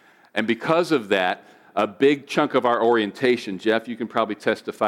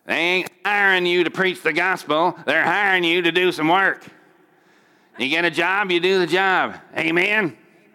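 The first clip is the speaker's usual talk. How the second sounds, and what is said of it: Imitates another person's voice. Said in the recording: “I don't do the best Pastor Hagin impression, but that's who that was supposed to be.”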